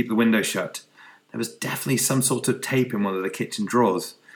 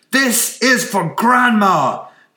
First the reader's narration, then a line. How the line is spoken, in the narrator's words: he yelled